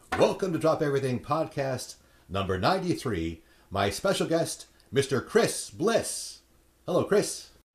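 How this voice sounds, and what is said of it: Professional podcast host voice. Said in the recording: “you really did put on your podcasting voice ... This is my professional podcaster voice”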